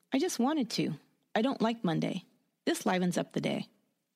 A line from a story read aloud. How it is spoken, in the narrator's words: She calmly answered